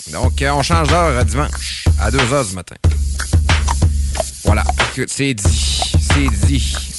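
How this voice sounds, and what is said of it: Québécois French accent. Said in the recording (French): “mon accent québécois de marde”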